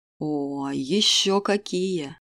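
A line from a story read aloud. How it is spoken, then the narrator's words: Dreamy heartfelt drawl. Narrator (Russian): С чувством протянул его величество, мечтательно улыбаясь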